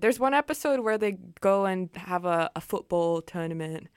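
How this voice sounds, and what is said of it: Put-on British accent. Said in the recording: “That was a really good British accent.”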